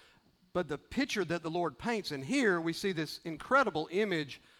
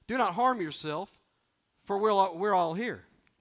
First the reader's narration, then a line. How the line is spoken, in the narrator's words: Paul cried out with a loud voice